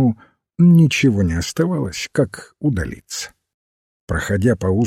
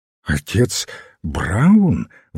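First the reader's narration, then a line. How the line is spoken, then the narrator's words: Exclaimed. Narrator (Russian): воскликнул репортер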